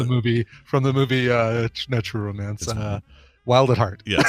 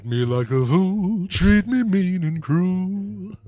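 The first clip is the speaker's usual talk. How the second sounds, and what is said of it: Imitates another person's singing voice. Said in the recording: “my impersonation, Nicolas Cage impersonating Elvis Presley ... That's pretty good.”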